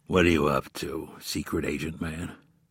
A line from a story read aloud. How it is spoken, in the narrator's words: In a deep, gravelly voice, asked